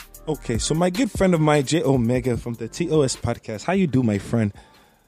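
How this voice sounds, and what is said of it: Put-on Wakandan-style accent. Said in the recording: “Can I do it in my accent from Wakanda?”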